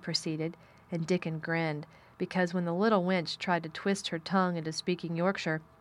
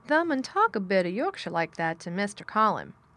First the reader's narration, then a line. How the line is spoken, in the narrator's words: Dickon chuckled